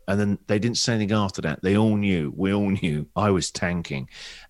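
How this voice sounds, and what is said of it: English accent. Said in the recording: “people recognized my accent. And I was the English guy on the radio ... expensive British import”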